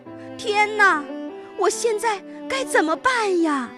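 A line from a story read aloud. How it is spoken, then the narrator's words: Desperate shout. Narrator (Chinese): 他绝望地喊道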